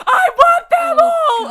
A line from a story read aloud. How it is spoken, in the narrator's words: she just started yelling